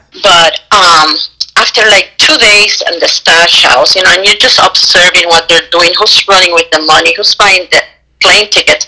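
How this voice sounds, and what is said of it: Strong Puerto Rican accent. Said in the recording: “I'm Puerto Rican and my accent is so strong”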